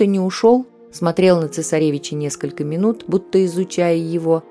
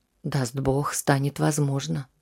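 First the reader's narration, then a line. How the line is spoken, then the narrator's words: Sighing. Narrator (Russian): вздохнул врач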